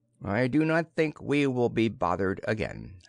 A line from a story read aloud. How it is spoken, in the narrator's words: said Shurzon calmly